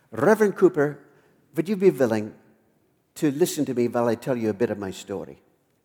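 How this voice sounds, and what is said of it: Heavy Dutch accent. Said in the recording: “in a quite heavy Dutch accent”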